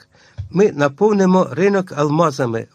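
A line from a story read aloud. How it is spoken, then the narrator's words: Exclaiming. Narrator (Ukrainian): вигукнув Гуд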